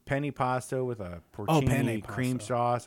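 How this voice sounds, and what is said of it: Chicago accent. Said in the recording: “That's your damn Chicago accent.”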